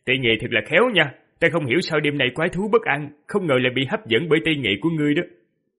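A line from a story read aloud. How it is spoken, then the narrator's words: Young man laughing loudly. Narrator (Vietnamese): Thiếu niên đột nhiên cười lớn rồi nói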